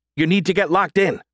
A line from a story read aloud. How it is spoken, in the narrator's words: she snapped back